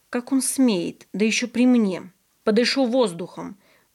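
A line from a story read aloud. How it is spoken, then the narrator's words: Angry. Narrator (Russian): зло сказал я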